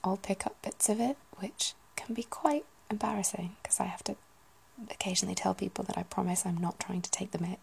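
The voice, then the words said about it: Southern English accent, flat northern A's. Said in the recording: “my accent currently is generally pretty southern, but I still have the short, quite flat A's from the northwest”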